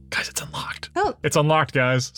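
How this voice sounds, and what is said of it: Whispering. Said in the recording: “whispering”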